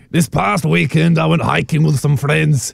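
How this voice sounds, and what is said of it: Put-on Scottish accent. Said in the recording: “Scotland. Do Scotland.”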